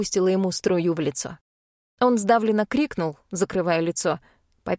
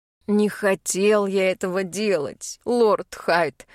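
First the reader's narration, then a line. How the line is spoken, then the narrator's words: Moaning. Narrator (Russian): простонал Рудольф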